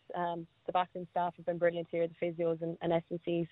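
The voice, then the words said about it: Fast speech with a strong accent. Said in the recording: “you do speak very quick with your accent.”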